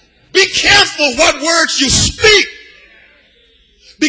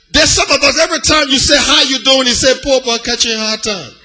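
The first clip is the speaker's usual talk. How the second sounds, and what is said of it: Liberian English accent. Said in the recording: “I'm from Liberia, and I told you I can split my accent.”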